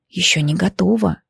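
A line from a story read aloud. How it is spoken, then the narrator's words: Impatient whisper. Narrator (Russian): с нетерпением шептал я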